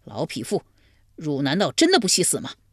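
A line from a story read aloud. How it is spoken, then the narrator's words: Furious. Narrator (Chinese): 怀公大怒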